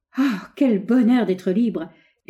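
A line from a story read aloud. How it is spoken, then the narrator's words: Joyful stretching exclamation. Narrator (French): s'écria-t-elle en se détirant les membres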